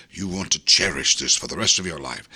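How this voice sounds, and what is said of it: Put-on old-fashioned English voice. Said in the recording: “I had no idea your dad sounded like Alec Guinness.”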